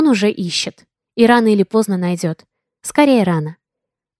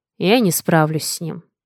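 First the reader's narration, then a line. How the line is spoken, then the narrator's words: Calm statement, man. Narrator (Russian): спокойно констатировал мужчина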